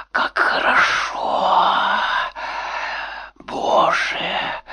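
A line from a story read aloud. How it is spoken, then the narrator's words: Whispered. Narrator (Russian): шептала Маша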